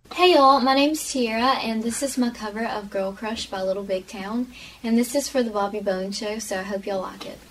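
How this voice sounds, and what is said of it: Very prominent accent. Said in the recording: “it's the accent for me. It's just, like, very prominent in this video.”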